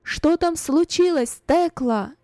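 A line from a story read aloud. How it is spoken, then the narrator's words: Loud question. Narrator (Russian): громко спросила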